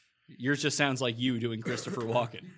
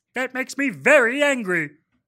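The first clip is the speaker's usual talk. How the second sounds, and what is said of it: Marvin the Martian cartoon voice. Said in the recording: “Now I got to get my voice ready for it. ... That's a better Marvin the Martian than yours.”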